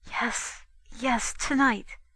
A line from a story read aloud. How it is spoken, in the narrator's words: Between the kisses she whispered